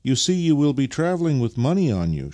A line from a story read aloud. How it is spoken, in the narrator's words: she continued in the same anxious tone